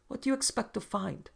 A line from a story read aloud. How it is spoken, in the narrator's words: Dick laughed a laugh that wasn't a laugh as he asked